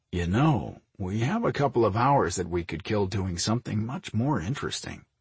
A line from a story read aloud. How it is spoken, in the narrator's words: Mike murmured